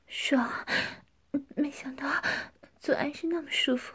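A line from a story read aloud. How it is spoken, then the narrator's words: Heavy panting. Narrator (Chinese): 江环喘着粗气说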